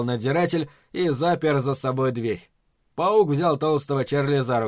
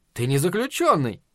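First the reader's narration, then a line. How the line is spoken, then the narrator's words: Cheerful objection. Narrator (Russian): весело возразил паук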